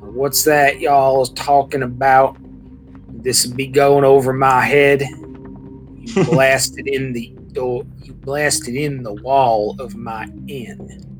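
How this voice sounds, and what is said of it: Put-on Southern drawl. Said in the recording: “with what sounds like a southern drawl”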